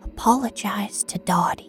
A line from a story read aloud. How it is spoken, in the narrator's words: she whispered into the crease of my throbbing neck